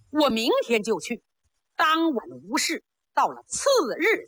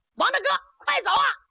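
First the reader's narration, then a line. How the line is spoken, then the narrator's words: Shouted. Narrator (Chinese): 就听那边喊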